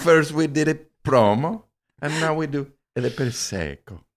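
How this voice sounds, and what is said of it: Put-on stereotyped Italian accent. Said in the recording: “Italian people are white. We're allowed to do that accent. ... an ethnic stereotype”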